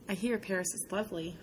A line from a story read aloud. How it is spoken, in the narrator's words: I murmur